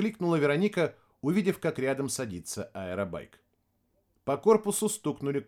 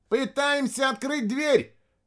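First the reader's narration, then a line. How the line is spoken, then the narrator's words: Shouted. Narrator (Russian): крикнул Костя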